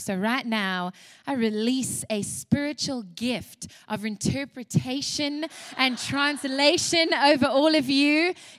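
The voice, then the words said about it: South African accent. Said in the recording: “you can hear from my accent as well. I was raised in South Africa ... that is where the accent comes from”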